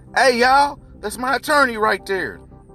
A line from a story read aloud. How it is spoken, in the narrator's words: Junie shouted